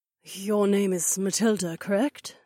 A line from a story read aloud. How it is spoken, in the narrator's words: Olette whispered